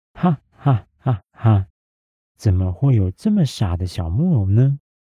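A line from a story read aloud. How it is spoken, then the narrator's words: Sly mocking laughter. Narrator (Chinese): 狐狸确定皮诺丘一个人爬不出洞穴之后，露出了一直隐藏在和蔼笑容里面的奸诈表情，并拿出那五枚金币，大笑地告诉皮诺丘说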